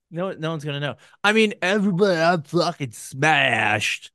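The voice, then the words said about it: Bad impression of drunk voice. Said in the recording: “That was a terrible impression of Drunk Lenny”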